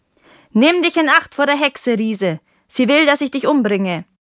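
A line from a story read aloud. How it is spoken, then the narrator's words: Calling out. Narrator (German): die Gärtnerin rief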